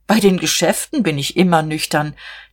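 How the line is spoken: Laughing. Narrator (German): Herr Kienast lachte auch

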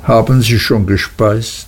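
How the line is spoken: Plain. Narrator (German): fragte Mr

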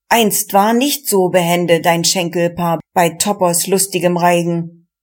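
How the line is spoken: Calling out. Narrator (German): rief der

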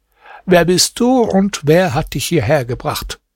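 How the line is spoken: Plain. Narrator (German): fragte sie Hasan

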